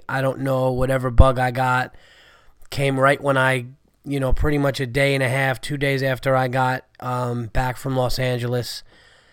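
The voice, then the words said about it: Sick, under-the-weather voice. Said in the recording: “As you can hear from my voice, I'm still under the weather and sick.”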